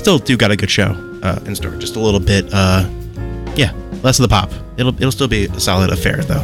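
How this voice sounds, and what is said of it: Hoarse, strained voice from a cold. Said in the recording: “get over that cold that's been going around, so I've been losing my voice a little bit”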